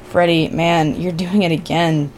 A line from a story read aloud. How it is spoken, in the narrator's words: said Billy quietly